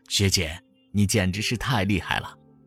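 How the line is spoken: Amazed exclamation. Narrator (Chinese): 我惊叹

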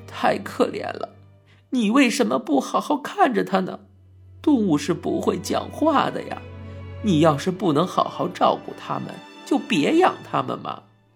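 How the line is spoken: Crying, scolding. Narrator (Chinese): 妈妈一边哭着一边训斥我道

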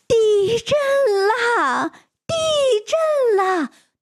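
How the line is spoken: Alarmed shouting. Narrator (Chinese): 叫喊声

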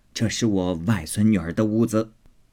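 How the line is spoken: Laughing. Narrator (Chinese): 贾母笑道

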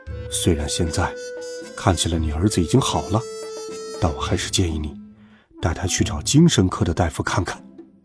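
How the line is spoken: Doctor speaking quietly. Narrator (Chinese): 医生小声对妈妈说

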